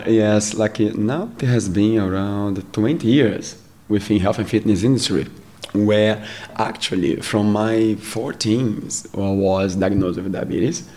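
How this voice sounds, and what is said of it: Brazilian-accented English. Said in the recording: “is from Brazil. I will have to slow him down through his talking ... I have an amazing accent.”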